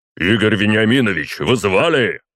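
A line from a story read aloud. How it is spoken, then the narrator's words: Deafening bark. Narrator (Russian): рявкнул один из них так, что у меня чуть уши не заложило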